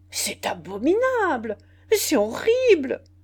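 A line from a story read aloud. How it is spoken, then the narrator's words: Many voices crying out. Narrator (French): s'écrièrent toutes les voix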